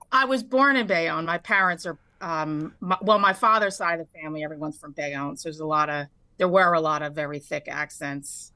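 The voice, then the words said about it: New Jersey accent. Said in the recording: “you have a great radio voice, too. ... You have a great Jersey accent.”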